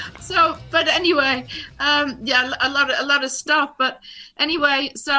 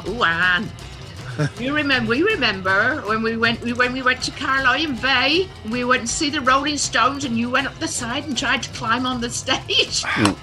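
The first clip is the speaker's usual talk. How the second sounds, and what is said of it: Imitated Cornish accent. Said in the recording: “She's Cornish accent, you know.”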